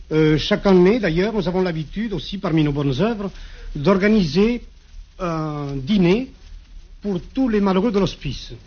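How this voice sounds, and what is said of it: Regional French accent. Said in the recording (French): “je crois que vous n'avez pas perdu l'accent.”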